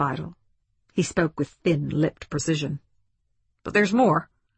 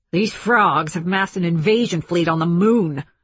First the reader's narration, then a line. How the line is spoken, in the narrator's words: snapped Spidle